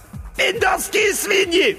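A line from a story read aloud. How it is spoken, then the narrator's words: Shrill squeal. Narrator (Russian): взвизгнул бригадный генерал Хухуев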